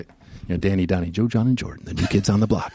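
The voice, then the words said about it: Announcer voice. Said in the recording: “I've been practicing my announcer voice”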